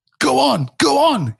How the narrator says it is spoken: he shouted

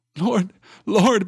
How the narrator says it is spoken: began Merry brokenly

